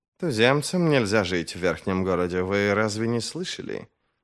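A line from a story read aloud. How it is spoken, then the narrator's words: Quiet reply. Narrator (Russian): Негромко отозвался Хадиш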